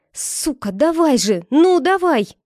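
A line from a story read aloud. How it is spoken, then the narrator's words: Howl through clenched teeth. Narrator (Russian): Я взвыла сквозь зубы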